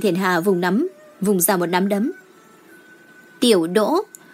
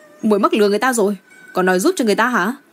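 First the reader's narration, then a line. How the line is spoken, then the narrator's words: Shouted. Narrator (Vietnamese): Chàng hét lên với Đinh Thiển Hà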